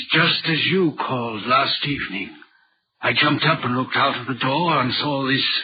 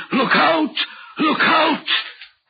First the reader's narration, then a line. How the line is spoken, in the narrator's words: the voice seemed hoarse with shouting and it cried